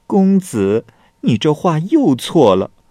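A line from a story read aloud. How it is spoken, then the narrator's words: Laughing. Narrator (Chinese): 美女又笑了，说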